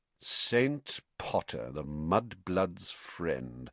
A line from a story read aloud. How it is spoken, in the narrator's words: said Malfoy slowly